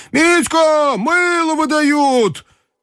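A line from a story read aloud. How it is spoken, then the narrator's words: Shouted. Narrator (Russian): низенькая фигура в разодранной до пупа рубашке, крикнула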